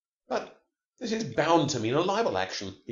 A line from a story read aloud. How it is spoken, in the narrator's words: cried